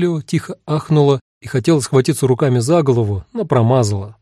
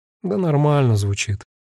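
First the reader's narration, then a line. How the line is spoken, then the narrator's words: Sighing. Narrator (Russian): вздохнул я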